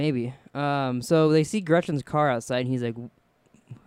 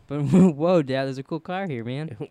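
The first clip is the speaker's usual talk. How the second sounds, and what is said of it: Imitates another person's voice. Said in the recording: “do his impression ... That's my only voice.”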